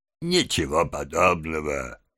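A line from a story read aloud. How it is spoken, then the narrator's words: Muttering with faint smile. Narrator (Russian): едва улыбался и бормотал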